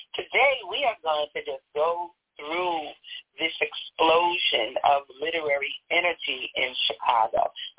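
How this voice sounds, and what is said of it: New York accent. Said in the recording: “I'm from New York. You can hear the accent, right?”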